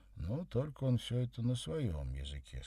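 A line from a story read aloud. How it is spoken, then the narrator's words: Plain. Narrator (Russian): сказал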